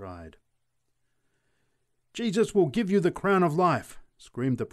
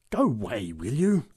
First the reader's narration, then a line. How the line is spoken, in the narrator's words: growled the big woman